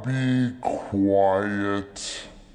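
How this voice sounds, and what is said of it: Deep voice. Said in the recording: “That was a deep voice.”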